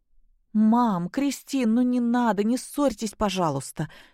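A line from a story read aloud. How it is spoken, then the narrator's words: Pleading. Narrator (Russian): взмолилась Наташа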